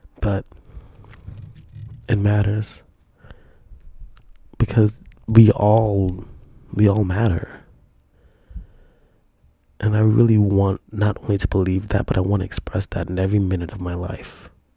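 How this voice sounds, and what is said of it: Weak voice. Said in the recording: “my voice is weak”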